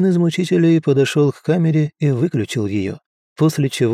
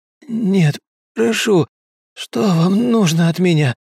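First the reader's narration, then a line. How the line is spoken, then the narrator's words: Pained hoarse rasp. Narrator (Russian): Он не был готов к очередной порции боли и поэтому прохрипел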